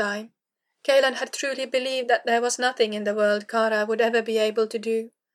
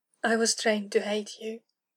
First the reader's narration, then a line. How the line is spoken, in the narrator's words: Kara whispered, echoing her thoughts